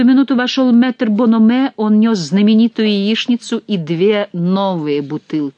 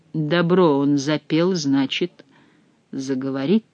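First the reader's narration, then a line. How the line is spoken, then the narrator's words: Quiet. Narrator (Russian): Затем тихо добавил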